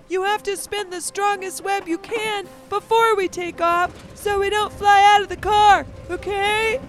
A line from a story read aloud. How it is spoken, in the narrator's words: Spindle shrieked